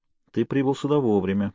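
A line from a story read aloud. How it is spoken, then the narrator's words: Low mutter. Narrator (Russian): в полголоса пробормотал я Сэмпсону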